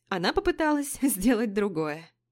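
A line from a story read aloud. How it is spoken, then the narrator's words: Laughing. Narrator (Russian): засмеялась я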